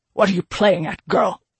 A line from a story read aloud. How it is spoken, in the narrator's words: He spat the question